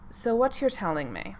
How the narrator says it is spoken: Severus said flatly

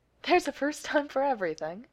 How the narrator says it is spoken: said, still chuckling

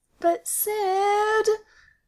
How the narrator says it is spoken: Austin whines

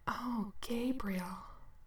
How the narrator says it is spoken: Sam whispered reverently

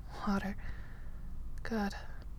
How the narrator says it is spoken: Clint mumbles

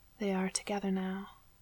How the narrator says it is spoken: he said quietly

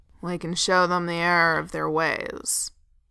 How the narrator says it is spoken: Dwalin growled

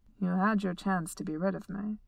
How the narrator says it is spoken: he said, and though his voice was mild

